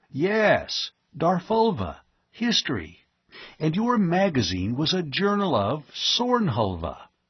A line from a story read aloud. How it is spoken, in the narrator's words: Penrose exclaimed